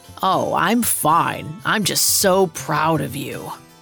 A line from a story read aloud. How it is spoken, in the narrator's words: Heinrich gave his brother a sneering smile and said